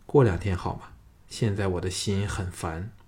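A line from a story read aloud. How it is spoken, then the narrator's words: Sighing. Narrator (Chinese): 叹了一口气说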